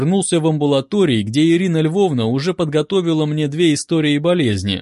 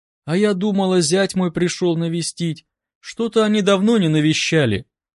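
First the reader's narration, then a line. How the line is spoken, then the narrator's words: Sad woman's voice. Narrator (Russian): грустно проговорила женщина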